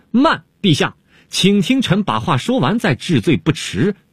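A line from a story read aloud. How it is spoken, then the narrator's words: Sudden shout. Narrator (Chinese): 东方朔忽然大叫了起来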